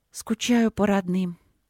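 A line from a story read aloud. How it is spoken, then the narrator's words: Sighing confession. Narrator (Russian): призналась она и вздохнула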